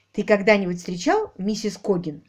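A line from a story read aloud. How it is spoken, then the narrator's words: Plain. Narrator (Russian): спросила Полли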